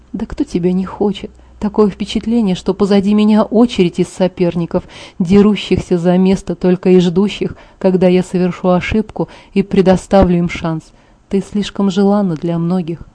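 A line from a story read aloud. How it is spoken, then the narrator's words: Laugh, then quiet. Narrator (Russian): Он рассмеялся и затем тихо добавил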